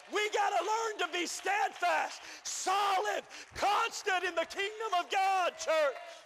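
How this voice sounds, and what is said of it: Strained voice, nearly losing it. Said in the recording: “I'm almost to lose my voice”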